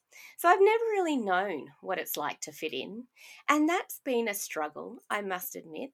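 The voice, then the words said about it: Australian accent. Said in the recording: “I have an Australian accent. I don't even sound Mauritian.”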